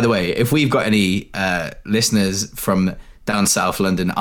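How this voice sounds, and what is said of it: Usual voice. Nothing is said of it.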